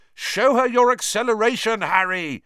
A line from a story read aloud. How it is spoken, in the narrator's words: Fred yelled as he whooshed past